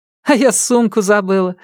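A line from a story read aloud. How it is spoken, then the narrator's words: Laughing woman. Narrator (Russian): рассмеялась инструкторша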